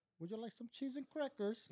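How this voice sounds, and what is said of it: Put-on British accent. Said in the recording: “A British accent... I think that's English. That was actually pretty good.”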